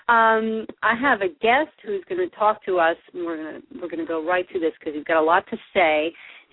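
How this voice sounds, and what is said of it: Congested, rough-sounding voice. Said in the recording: “I have a little bit of a cold, lingering cold today, and I apologize for my voice, which usually sounds so much classier”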